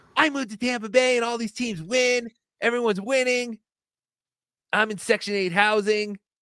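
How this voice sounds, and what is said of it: Imitates another person's voice. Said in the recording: “my Chad impression”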